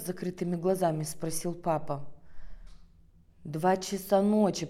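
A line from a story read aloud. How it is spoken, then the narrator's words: Grumbling mother. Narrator (Russian): проворчала мама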